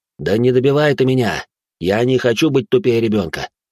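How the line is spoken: Sigh. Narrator (Russian): вздохнул он

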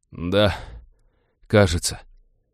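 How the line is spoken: Hoarse wheeze. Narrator (Russian): просипел смутно напоминавший Винни красноглазый уродец

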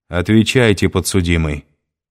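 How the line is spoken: Sharp, stern judge. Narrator (Russian): резко сказал судья

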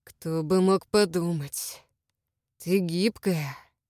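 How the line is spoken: Heavy husky voice. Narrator (Russian): Голос утяжелился хрипотцой

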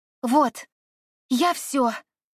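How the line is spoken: Excited announcement. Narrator (Russian): взволнованно объявила она

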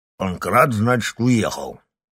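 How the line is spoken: Mumbled while chewing. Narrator (Russian): жуя оладью, пробурчал он

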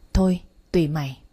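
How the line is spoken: Sighing. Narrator (Vietnamese): Nam thở dài

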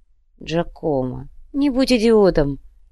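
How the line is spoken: Lazy. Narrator (Russian): лениво произнес Адриана

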